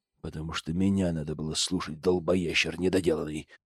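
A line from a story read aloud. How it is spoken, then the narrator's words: Growled. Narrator (Russian): прорычал главный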